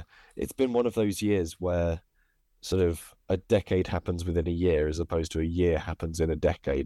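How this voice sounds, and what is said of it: Tired, exhausted-sounding voice. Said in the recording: “I'm shattered. You can hear it in my voice. I'm exhausted by it.”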